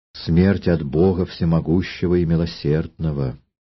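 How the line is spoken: Timid. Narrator (Russian): Имогена робко сказала

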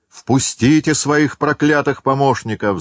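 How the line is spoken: Shouting teacher. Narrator (Russian): закричал учитель

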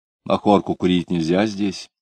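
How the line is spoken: Quiet question. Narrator (Russian): тихонько спросил он

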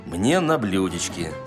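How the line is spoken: Plain. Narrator (Russian): сказал Остап

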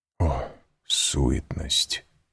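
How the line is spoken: Whisper. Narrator (Russian): прошептал граф

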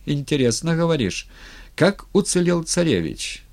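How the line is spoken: Light and cheerful. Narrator (Russian): спросил он легко и весело

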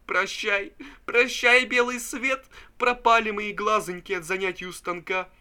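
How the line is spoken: Sobbing. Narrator (Russian): Пузырев рыдал и говорил

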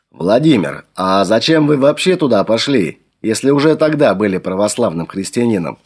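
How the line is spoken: Plain question. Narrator (Russian): спросил Флавиан

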